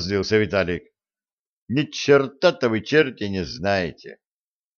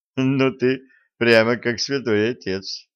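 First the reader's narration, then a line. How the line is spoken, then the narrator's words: Laughing. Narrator (Russian): рассмеялся Виталик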